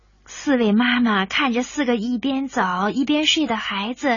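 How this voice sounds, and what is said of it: Usual voice. Nothing is said of it.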